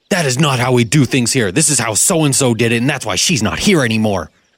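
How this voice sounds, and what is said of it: Imitates a scolding manager's voice. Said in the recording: “Put on your manager voice”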